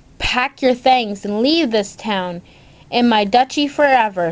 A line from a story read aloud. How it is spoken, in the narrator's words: shouted the Duke